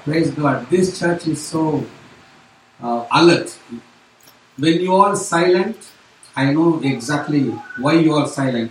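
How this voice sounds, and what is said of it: Non-native English accent. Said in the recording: “my accent, my poor English. If I could speak English like you guys”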